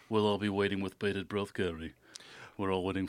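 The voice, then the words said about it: Imitates another person's voice. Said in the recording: “That's a really good impression ... You are a man of many voices.”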